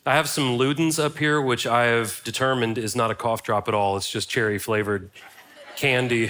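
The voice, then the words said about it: Congested, slightly stuffy voice. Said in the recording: “A little bit of congestion, so if I sound a little weird today”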